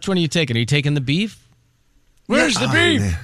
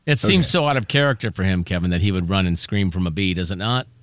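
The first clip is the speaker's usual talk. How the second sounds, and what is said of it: Sarcastic tone. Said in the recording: “The way you say that. ... That was sarcastic”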